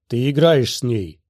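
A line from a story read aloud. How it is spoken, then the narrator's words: Growl again. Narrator (Russian): вновь зарычал Нил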